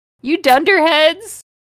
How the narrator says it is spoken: screamed Dumbledore wisely

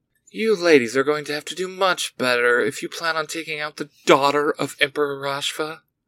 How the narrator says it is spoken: Lilith giggles

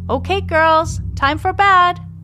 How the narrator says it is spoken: shouts Mrs

